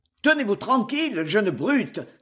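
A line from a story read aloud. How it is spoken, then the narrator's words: Exclaimed. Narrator (French): s'écria Jasper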